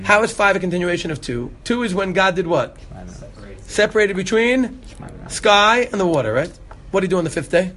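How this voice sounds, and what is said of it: Brooklyn accent. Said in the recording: “Despite the Brooklyn accent?”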